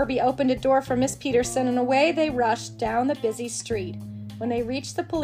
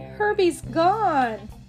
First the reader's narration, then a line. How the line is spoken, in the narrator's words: cried